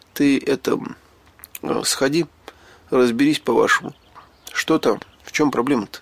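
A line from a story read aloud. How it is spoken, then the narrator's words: Slightly trembling request. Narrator (Russian): чуть дрогнувшим голосом попросил я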